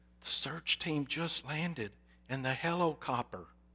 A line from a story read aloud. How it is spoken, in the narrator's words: In an awed, whispering voice, the child answered